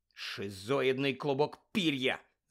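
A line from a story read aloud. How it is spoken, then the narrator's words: Hiss. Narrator (Ukrainian): зашипів Рон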